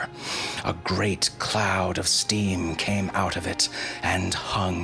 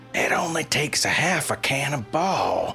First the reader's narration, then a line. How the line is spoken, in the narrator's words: yelled the sheriff